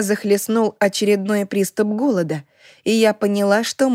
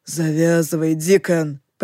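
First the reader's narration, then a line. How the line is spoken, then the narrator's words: Growled. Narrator (Russian): прорычал Лохлин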